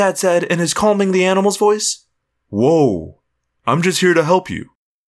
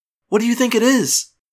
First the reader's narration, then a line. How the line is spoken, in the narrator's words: I asked my dad anxiously